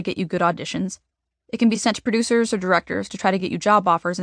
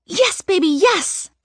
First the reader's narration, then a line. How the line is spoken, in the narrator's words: Mom screams, so excited